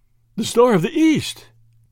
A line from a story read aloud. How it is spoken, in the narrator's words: gasped Lord Yardley